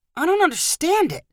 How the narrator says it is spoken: Twiggs cried

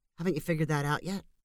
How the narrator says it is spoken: said Marcel

